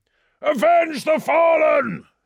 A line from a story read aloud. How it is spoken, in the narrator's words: He roared